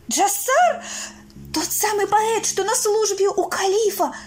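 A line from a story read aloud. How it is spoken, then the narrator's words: Horrified cry. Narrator (Russian): вскрикнула, в ужасе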